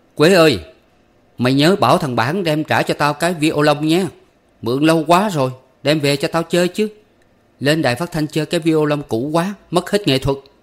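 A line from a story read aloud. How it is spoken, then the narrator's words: Loud calling out. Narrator (Vietnamese): Từ Cầu Bo lớn tiếng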